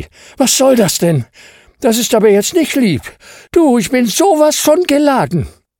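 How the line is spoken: Panting. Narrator (German): keuchte

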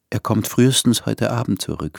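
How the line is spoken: Smiling whisper. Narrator (German): flüsterte und lächelte

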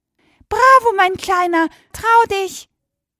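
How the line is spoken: Dragonfly calling out. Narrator (German): Plötzlich kreiste die Libelle über ihm und rief

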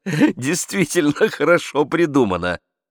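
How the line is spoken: Laughing remark. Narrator (Russian): заметил, смеясь, Ламоль

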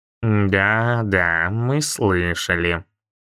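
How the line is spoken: Deep booming bass. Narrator (Russian): низким басом прогудела она

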